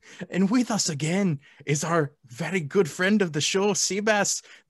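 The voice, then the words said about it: Put-on Scottish accent. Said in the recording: “this is turning into a Scottish accent ... that accent just made my night”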